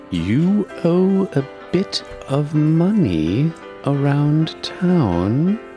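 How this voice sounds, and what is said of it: Cold, diabolical character voice. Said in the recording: “he got the cold diabolical ... Diabolical.”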